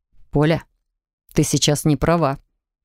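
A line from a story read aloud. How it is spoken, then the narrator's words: Muffled, hollow voice. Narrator (Russian): проговорил он глухо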